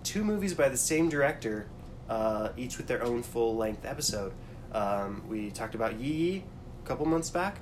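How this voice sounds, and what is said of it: Rough, congested voice. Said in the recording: “Excuse my voice, I'm a little... recovering from some cold that I had last weekend”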